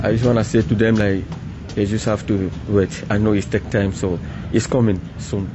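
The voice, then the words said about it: Strong accent, hard to understand. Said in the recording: “I hope you guys were able to understand so much of that. Obviously, having that accent”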